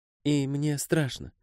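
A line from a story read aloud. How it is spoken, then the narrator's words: Woman's whisper. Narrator (Russian): прошептала женщина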